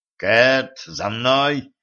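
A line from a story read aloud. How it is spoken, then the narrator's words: Growling. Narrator (Russian): прорычал Денис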